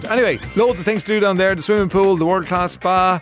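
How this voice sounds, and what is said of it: Irish Midlands accent. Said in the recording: “it sounds like I'm saying photo and I'm saying Fota. It's probably the Midlands accent.”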